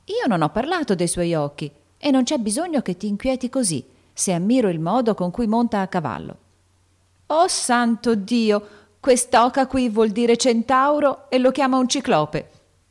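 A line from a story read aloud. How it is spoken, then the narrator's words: Exclaimed, bursting into laughter. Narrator (Italian): esclamò Joe scoppiando in una gran risata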